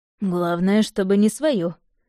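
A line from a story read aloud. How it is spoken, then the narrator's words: Snorting. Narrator (Russian): хмыкнул ведьмак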